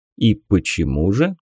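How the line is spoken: Calm question. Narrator (Russian): спокойно спросил Хира

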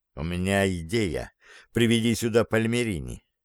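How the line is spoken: Muffled whisper. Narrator (Russian): Рукой прикрыв микрофон, прошептал

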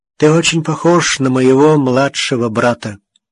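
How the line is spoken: Hoarse. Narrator (Russian): Капитан сказал хрипло

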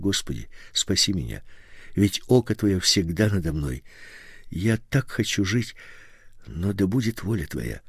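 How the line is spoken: Whispered prayer. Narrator (Russian): прошептал

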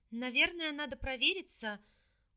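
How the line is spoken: Frightened babble. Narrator (Russian): испуганно пролепетала

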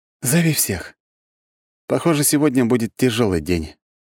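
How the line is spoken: Sigh. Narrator (Russian): вздохнул

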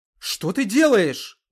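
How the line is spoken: Angry question. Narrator (Russian): зло спросила Эльвира

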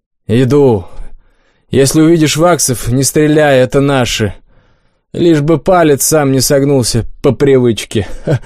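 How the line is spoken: Chuckling. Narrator (Russian): хохотнул стрелок

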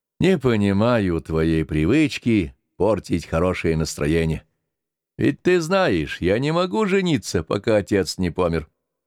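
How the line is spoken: Sighing. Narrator (Russian): Яков сказал, вздохнув

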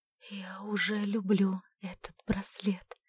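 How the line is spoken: Whisper. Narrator (Russian): прошептала она

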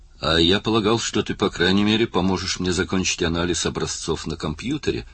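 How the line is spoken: Gloomy remark. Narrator (Russian): мрачно заметил Пью

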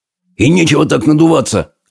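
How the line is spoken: Soldier barking. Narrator (Russian): рявкнул на него солдат

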